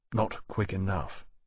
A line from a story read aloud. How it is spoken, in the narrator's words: Lawrence said quietly